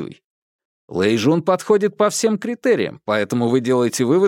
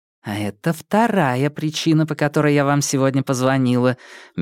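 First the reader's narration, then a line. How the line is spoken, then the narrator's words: Soft reply. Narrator (Russian): мягко ответила Нин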